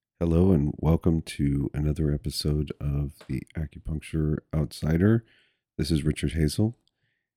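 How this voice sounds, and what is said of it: Congested, sick-sounding voice. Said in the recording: “I sound a little sick ... lots of congestion and cough ... I still sound like crap”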